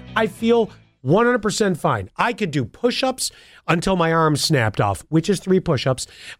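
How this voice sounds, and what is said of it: Nasal, congested voice. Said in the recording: “I sound nasally... it sounds like a brick of snot in my nose... I never hear him sound nasally”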